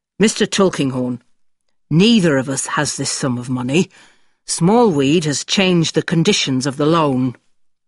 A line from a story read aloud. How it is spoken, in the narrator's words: says George angrily